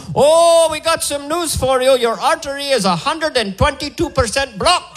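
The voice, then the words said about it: Put-on Indian accent. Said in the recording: “make sure they're from India... Everything sounds good with that accent”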